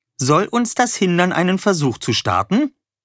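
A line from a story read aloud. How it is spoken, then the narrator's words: Cheerful. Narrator (German): sagte Wolle fröhlich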